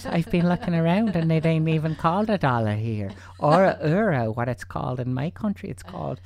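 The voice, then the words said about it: Put-on Northern Irish, Welsh-sounding accent. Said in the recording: “Irish accents... That was a Northern Irish accent... you sounded... Welsh.”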